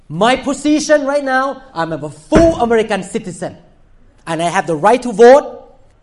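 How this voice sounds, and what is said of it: Asian non-native English accent. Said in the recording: “Do I look Asian? ... Do I speak English with accent? ... I speak with accent. ... I look Asian, I speak with accent”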